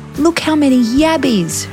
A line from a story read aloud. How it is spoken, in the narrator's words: she squealed